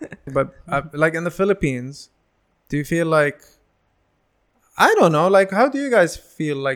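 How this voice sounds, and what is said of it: Usual voice. Nothing is said of it.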